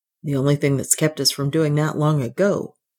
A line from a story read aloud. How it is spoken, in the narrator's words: Ralph said